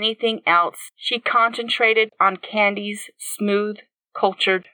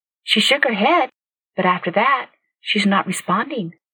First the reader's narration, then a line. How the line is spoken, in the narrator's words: Candy said quietly